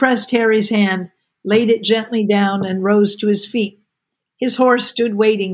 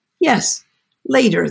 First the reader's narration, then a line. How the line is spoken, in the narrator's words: said, a trifle unsteadily